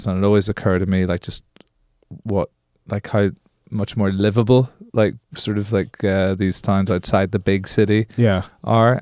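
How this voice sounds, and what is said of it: Belfast Northern Irish accent. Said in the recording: “I'm from Belfast, Northern Ireland. This is essentially a Belfast accent”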